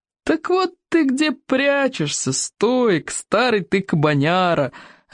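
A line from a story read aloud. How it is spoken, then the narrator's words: Joyful yell. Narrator (Russian): радостно заорала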